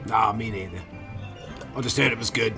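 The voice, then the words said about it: Put-on accent drifting toward Australian. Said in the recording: “I don't know why I sound Australian all of a sudden. My accent's drifting.”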